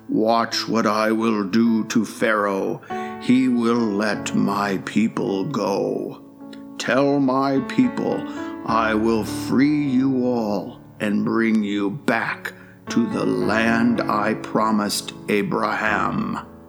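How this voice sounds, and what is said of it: Thundering, booming voice of God. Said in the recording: “in a thundering voice”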